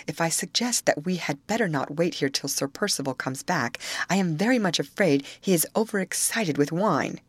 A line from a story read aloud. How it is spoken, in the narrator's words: I whispered